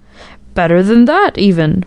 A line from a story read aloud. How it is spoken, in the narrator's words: laughing answer